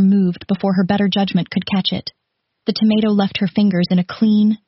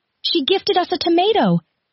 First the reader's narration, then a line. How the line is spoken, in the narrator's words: howled with pure, delirious joy